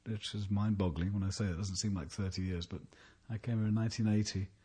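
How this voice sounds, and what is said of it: London English accent. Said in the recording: “You don't talk like a New Orleanian. This suggests you come from somewhere else. ... English accent ... I'm from London originally”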